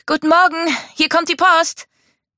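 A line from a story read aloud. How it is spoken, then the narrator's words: Calling. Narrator (German): rief Mika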